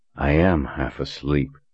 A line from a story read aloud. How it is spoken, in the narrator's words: he muttered